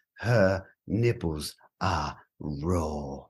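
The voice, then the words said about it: Imitates another person's voice. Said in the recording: “my Gordon Ramsay impression”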